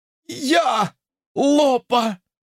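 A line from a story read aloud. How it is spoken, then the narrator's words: Hoarse confirmation. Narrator (Russian): подтвердил хриплый голос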